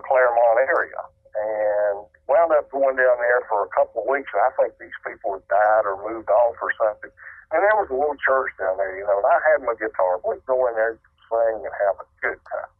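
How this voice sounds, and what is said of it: Western North Carolina accent. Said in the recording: “You've got a bit of an accent ... this is a North Carolina accent. ... Western North Carolina accent.”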